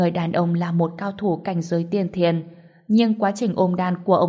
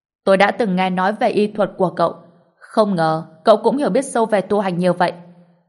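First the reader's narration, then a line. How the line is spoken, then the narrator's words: Sudden laughter. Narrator (Vietnamese): Người đó chợt bật cười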